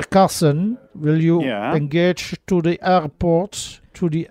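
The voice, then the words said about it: Put-on German accent in English. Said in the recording (Dutch): “ik doe het nu een beetje met een Duits accent.”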